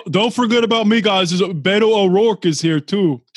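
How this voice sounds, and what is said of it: Put-on New York accent. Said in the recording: “I don't know where I got this New York accent. ... When did you grow up in the Bronx?”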